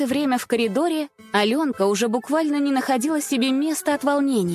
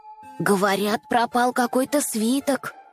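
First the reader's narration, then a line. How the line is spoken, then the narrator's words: Quiet. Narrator (Russian): тихо ответила Маша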